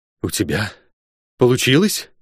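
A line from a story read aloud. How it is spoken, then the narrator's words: Hoarse, frozen with dread. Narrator (Russian): прохрипел я с застывшим сердцем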